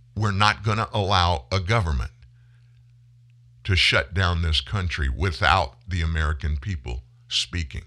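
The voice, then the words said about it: Very emotional, impassioned speech. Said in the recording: “Do I sound a little bit emotional? I'm not a little bit emotional. I'm very emotional.”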